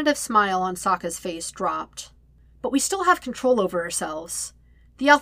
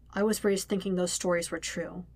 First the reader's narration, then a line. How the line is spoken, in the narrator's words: says quietly